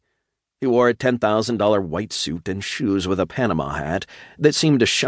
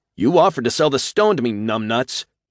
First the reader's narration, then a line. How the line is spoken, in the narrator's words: I shouted